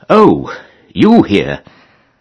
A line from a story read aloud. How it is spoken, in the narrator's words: People in Buckinghamshire would have come upon them unexpectedly and have exclaimed